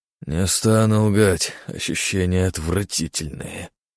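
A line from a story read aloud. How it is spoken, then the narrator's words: Grumbled. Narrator (Russian): буркнул он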